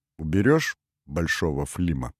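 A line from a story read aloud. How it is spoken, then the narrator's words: Quiet question. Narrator (Russian): тихо спросил Форман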